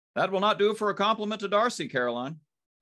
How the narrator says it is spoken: cried

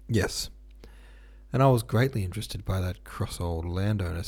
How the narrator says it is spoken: said Levin with a sigh

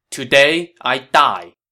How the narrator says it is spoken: Chen Gong answered loudly

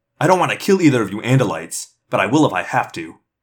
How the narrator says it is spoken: the man snapped

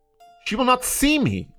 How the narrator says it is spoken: cried Ferguson

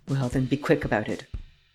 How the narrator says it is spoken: Varin muttered

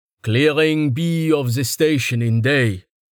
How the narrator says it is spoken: said a booming voice in Zelanda

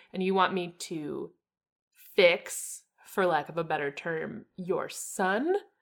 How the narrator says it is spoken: she says slowly

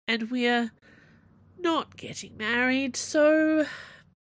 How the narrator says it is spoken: Aramis moaned

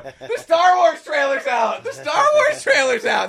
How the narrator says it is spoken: they're just yelling

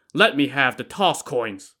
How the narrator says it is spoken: shouting

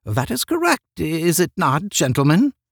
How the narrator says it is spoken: He asked, turning anxiously again

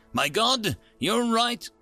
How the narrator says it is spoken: exclaimed the gadgeteer

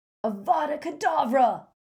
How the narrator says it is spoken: Crabbe screamed

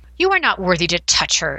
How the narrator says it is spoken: it sneered in a voice as superior as any I'd heard from its mistress

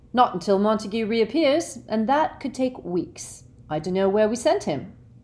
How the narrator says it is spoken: said Fred coolly

